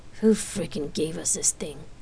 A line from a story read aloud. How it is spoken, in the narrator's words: Rain asked in a whisper